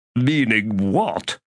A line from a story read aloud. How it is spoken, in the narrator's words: Rortos asked, his voice strangely tight